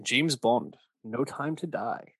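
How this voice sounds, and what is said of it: Bad Sean Connery impression. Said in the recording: “I don't even know what accent I was going for there. I don't know who that was supposed to be. Connery, I guess, but it was really bad.”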